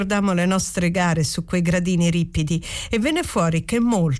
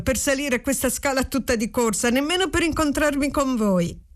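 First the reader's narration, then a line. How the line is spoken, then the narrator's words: Said laughing. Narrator (Italian): dissi ridendo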